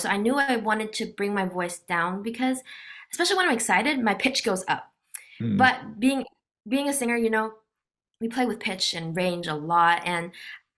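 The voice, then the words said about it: Slightly raspy, hoarse voice. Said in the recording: “right now my voice is a little bit raspier from the yelling I've been doing”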